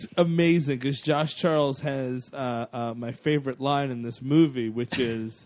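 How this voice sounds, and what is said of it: Usual voice. Nothing is said of it.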